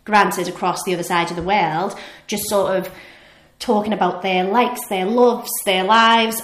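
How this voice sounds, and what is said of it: Liverpool accent. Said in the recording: “I think you can tell from my accent, I'm from Liverpool.”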